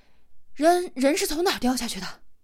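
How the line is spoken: Breathless gruff question. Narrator (Chinese): 江大林气都没喘匀，就粗声的问道

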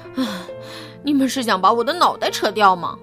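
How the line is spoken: Panting heavily. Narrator (Chinese): 布朗提喘着粗气说

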